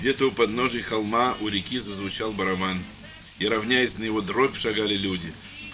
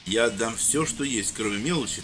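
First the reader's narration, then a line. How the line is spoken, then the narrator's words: Solemn vow, man. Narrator (Russian): торжественно поклялся мужчина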